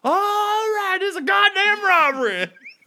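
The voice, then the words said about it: Nicolas Cage southern accent impression. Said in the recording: “Nicolas Cage ... when he robs a place, he has like a southern accent.”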